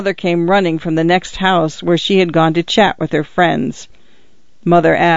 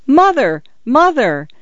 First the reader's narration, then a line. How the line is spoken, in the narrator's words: shouted